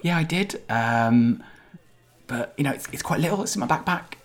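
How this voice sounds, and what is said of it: Odd put-on character accent. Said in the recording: “what's that accent?”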